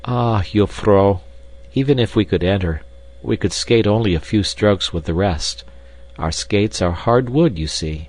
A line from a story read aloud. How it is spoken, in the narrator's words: answered respectfully